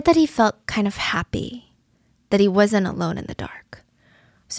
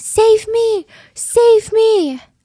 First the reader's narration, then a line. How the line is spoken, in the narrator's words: she's screaming